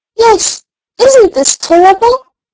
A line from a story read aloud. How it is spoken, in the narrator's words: exclaimed the doll